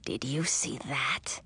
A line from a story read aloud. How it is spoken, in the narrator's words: Edric whispered, his lips so close that his breath tickled my ear